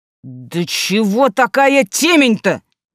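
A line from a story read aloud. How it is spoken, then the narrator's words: Sudden shout. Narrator (Russian): вдруг крикнул Иван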